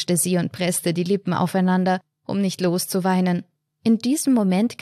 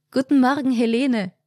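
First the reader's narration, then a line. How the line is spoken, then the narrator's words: Friendly smiling call. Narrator (German): rief freundlich lächelnd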